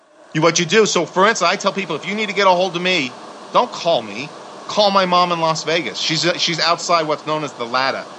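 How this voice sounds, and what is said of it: New York accent. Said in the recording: “I'm saying it with a New York accent”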